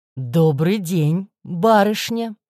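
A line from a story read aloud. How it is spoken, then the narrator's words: Pleasant low rumbling voice. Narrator (Russian): Приятным, низким и ракочущим голосом поздоровался он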